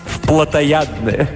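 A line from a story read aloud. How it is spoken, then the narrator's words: Musical laughter. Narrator (Russian): Ави рассмеялась, ее смех напоминает музыку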